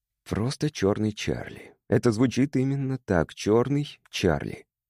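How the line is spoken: Unexpectedly calm. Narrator (Russian): сказал он неожиданно спокойно

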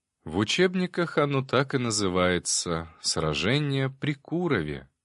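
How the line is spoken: Dreamy tone. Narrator (Russian): мечтательным тоном продолжил секретарь

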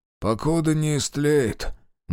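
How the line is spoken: Gloomy reply. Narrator (Russian): мрачно ответил сидевший на корточках Демьян

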